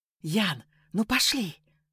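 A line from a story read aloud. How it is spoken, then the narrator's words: Whisper into ear. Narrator (Russian): шептала Лика, задевая кончиком языка ухо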